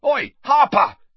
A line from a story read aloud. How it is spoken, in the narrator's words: yelled Harry in desperation